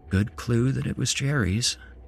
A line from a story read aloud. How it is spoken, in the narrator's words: said quietly and smiled